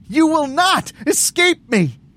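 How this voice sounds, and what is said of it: High-pitched shrieking character voice. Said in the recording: “Veronica's voice sounds like a real high-pitched shriek now.”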